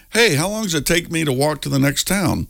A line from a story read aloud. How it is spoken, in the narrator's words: The man called out to the farmer